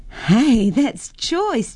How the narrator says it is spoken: Jennifer laughed

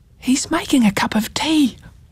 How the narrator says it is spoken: whispered Ruby

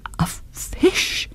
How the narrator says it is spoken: he cried

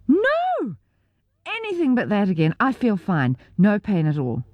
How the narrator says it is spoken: I screamed

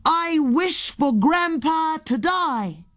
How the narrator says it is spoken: Henry said down the well

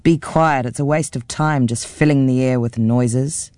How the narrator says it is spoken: her father growled

